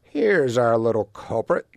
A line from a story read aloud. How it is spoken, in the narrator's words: said the third bear with a happy growl